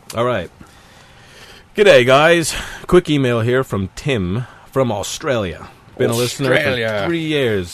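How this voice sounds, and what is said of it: Mock Australian accent. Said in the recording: “They love it when we make fun of their accent.”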